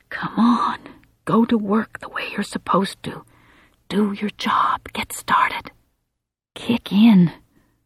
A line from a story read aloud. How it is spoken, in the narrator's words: she whispers, unaware she's speaking out loud